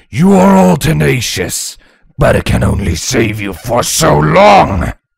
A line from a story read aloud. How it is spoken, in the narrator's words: Nya Dagger bellowed